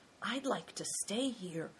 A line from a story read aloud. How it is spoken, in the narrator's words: whispered Christian